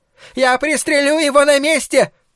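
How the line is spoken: Shouted. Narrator (Russian): закричал хозяин магазина

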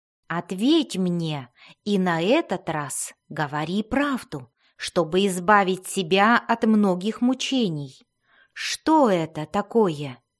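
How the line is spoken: Calm question. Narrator (Russian): спокойно спросил глубинный гном

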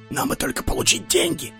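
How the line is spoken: Whispered. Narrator (Russian): стражники шепчутся

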